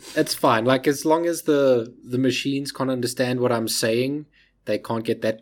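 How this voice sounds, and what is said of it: South African accent. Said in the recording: “Especially with our accent ... So that doesn't like South Africans very much ... I talk funny. I think I slur a little bit.”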